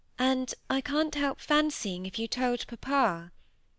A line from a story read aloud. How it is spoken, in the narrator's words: said Molly timidly and doubtfully